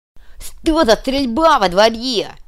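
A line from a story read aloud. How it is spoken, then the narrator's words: Angry bark. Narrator (Russian): злобно рявкнул кувалда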